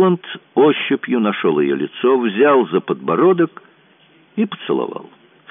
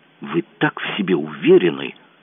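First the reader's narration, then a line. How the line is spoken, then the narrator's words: Angry whisper. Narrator (Russian): прошептала она зло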